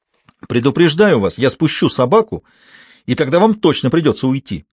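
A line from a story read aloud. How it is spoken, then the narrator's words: Barked. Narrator (Russian): рявкнул Декарт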